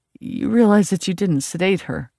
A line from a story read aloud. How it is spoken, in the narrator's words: I said, and I couldn't keep the anger out of my voice